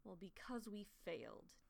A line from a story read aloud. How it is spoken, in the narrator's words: Talon says bitterly